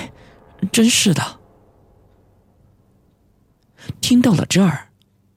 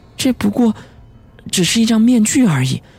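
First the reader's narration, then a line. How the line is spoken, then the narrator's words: Slow sighing. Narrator (Chinese): 他悠悠的……叹了一口气说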